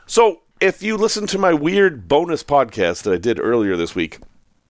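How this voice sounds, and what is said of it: Sick, tired, strained voice. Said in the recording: “my voice is not doing well, because I'm sick, and I'm tired”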